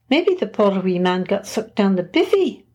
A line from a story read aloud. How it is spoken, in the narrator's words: Roberta offered, giggling